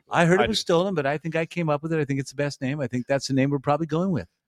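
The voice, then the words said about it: Trump impression. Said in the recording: “See, your perfect accent.”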